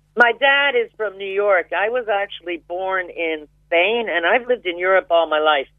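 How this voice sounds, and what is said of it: American accent. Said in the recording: “I can still detect an accent. Is that an American accent? ... Yeah. I never managed to lose that.”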